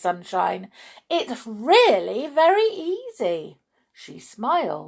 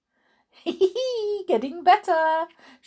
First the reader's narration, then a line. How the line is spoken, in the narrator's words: she chuckled